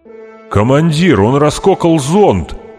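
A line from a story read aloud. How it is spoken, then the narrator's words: Shout. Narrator (Russian): закричал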